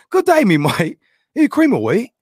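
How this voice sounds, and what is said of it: Put-on British accent. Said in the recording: “I have an awesome British accent”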